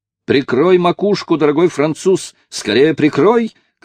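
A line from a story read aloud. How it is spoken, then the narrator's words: Coachman's shout. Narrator (Russian): крикнул возница, иными словами, мистер Ричард Джонс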